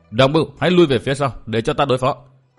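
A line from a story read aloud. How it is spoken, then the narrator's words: Furious loud shout. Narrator (Vietnamese): Diệu Đinh cũng cả giận quát lớn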